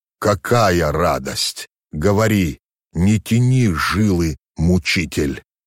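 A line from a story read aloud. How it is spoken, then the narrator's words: Moaning. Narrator (Russian): Скорее простонал, нежели произнес Иоанн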